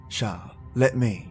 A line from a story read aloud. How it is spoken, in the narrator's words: Grandma said